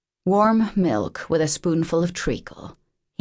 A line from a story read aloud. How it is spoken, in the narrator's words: murmured